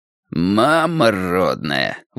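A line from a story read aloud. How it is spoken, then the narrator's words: Exclaiming. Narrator (Russian): воскликнул Тони Риццоли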